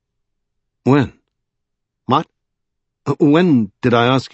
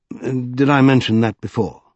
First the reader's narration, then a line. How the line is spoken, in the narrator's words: adding anxiously